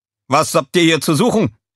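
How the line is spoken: Called out. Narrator (German): rief einer von ihnen

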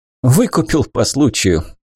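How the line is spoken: Laughing. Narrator (Russian): Тайр рассмеялся

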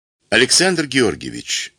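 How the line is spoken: Calm. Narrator (Russian): начал спокойно Левин

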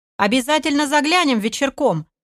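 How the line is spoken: Cheerful shout. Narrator (Russian): весело выкрикнул аналитик

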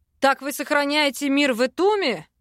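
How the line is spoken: Angry bark. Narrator (Russian): Рявкнул, разозлившись

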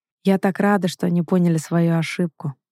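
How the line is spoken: Mother grumbling. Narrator (Russian): продолжает ворчать мамуля

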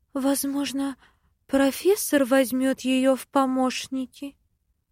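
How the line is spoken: Timid interjection. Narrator (Russian): Робко встревает завхоз

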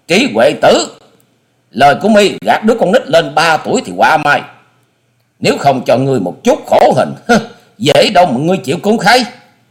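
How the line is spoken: Angry loud shout. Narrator (Vietnamese): Hà Xà Tiên Tử giận dữ thét to

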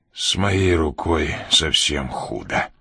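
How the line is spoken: Forced through teeth, in pain. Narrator (Russian): выдавил Ян сквозь зубы, когда тело вдруг захлестнуло волной огненной боли

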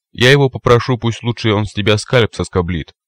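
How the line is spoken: Snort. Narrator (Russian): хмыкнул Метла

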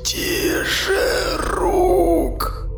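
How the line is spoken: Dying wheeze. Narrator (Russian): Просипел рядовой, выдавив три слога на последнем издыхании

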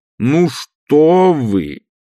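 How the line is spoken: Loud and clear repetition. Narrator (Russian): так же громко и четко повторил

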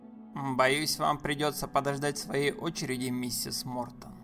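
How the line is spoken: Hard, hammering voice. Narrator (Russian): сказал он настолько жестким голосом, словно забивал гвозди

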